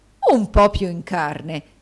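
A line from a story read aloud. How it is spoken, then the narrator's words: Horrified exclamation. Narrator (Italian): esclamò il direttore con orrore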